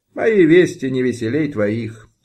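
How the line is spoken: Sighing. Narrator (Russian): вздохнул Янка

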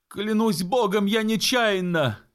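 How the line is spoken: Remorseful sailor shouting. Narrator (Russian): исполненный раскаяния крикнул моряк

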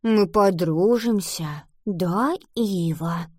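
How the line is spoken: Whisper. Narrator (Russian): прошептала она

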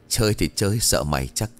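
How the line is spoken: Laughing. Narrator (Vietnamese): Trung ... bật cười

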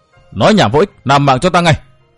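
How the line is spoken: Stern shout. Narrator (Vietnamese): nàng quát

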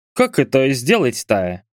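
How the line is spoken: Grumbled. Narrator (Russian): пробурчал Мурат

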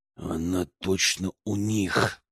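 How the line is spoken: Growled. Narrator (Russian): прорычал я

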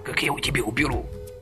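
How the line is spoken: Whispered snap. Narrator (Russian): шепотом огрызнулся Ромка

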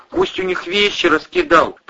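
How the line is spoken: Mumbling babble. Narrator (Russian): пролепетал Игорь

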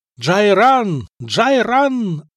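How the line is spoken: Yelling. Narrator (Russian): орал он

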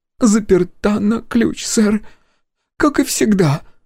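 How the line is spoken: Displeased sobbing woman. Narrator (Russian): недовольно всхлипнула женщина

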